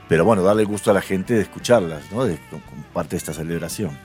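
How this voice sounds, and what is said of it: Radio announcer-like voice. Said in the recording (Spanish): “tiene voz de locutor, ¿no? Sí tiene voz de locutor.”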